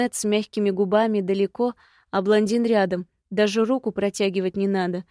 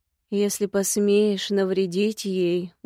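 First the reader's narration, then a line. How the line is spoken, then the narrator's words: Menacing growl. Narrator (Russian): угрожающе прорычали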